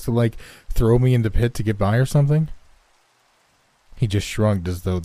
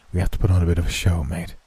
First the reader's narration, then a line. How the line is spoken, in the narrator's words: he whispered into my ear